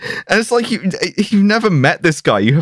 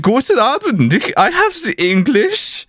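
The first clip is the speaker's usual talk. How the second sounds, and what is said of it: Exaggerated fake German accent. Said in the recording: “inexplicably pretending to be German ... You have no reason to be doing a fucked accent”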